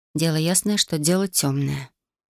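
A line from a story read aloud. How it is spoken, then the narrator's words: Gloomy. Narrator (Russian): мрачно произнесла я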